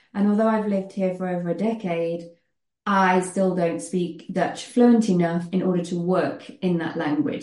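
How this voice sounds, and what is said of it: British English accent. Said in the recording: “you may gather from my accent that I am British”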